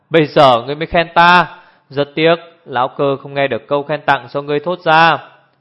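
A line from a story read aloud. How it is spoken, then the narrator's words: Laughing loudly. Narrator (Vietnamese): Hồ Thiết Hoa cười lớn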